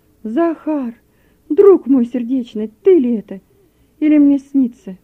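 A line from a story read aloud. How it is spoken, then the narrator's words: Surprised exclamation. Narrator (Russian): Рульков от удивления воскликнул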